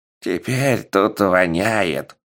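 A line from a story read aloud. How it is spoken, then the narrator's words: Grumbling old man, nose plugged. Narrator (Russian): проворчал старик, затыкая нос трусиками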